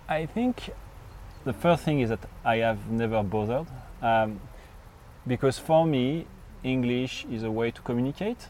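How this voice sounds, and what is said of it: Thick French accent. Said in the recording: “you've never lost this French accent... you have such a thick French accent”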